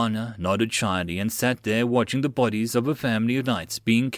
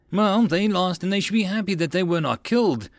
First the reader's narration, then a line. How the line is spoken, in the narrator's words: Titania exclaimed